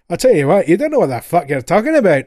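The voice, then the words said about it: Crazy put-on accent. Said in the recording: “I'm going to try and replicate the accent ... all in that kind of crazy accent. So the closest I can think of is Fat Bastard from the Austin Powers films.”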